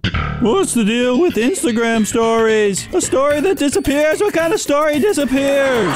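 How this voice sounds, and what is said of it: Jerry Seinfeld impression. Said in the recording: “my Seinfeld impression”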